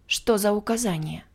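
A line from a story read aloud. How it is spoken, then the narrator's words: Breathless. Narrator (Russian): выдохнула я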